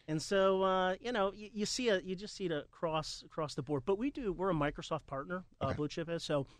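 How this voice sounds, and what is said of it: New Jersey accent. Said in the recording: “my Jersey accent”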